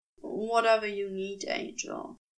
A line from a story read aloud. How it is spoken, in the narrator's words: Crowley murmured, voice hushed